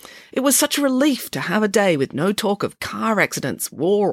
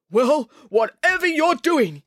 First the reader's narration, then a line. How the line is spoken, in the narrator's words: yelled the chairman